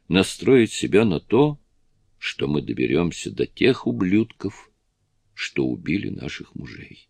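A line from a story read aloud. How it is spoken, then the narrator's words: Calm. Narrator (Russian): Петти спокойно добавила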